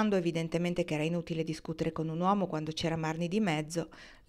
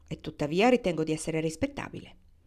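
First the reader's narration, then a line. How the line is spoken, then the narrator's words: Curt retort. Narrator (Italian): ribatté seccamente Kendra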